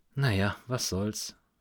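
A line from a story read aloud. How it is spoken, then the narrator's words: Sighing. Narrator (German): seufzte sie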